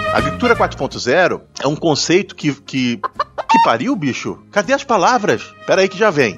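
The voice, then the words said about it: Congested late-night radio announcer voice. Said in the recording (Portuguese): “parece que eu tô falando igual aquele locutor do Good Times ... locutor da madrugada ... eu tô um pouco gripado ... eu só tô agora falando um pouco mais Good Times na madrugada”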